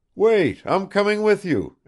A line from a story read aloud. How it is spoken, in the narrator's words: exclaimed Bazarov